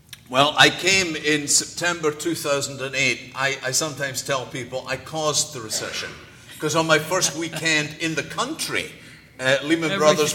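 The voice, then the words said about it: Scottish accent. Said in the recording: “Not very Spanish ... I'm Scottish by background. And you can call me Scottish, you can call me British, but if you call me English, your days are numbered.”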